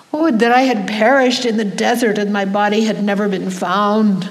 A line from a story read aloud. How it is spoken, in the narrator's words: Shocked and overwhelmed by this miraculous nativity, the Holy Mother cried out